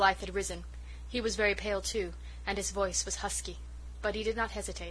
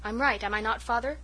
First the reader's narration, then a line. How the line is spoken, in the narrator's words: said Jem